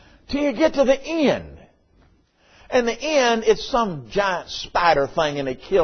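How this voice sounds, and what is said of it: Usual voice. Nothing is said of it.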